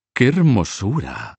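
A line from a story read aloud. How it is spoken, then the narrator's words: Exclaimed. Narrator (Spanish): exclamó Margarita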